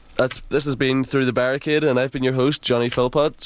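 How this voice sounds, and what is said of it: Northern Irish accent. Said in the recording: “Man, I love that kid's accent. How can you tell he's from Northern Ireland?”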